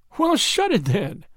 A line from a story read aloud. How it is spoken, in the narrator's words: laughed the woman